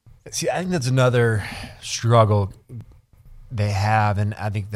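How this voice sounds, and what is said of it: Usual voice. Nothing is said of it.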